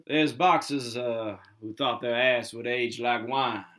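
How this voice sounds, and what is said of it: Poor impression of a movie character. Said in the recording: “That was a terrible impression of Ving Rhames' Marcellus Wallace”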